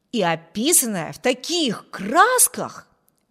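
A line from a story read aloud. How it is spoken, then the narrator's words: Exclamation. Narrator (Russian): воскликнул Виберт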